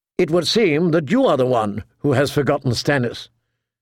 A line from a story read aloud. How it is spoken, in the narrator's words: Catelyn said, more sharply than she intended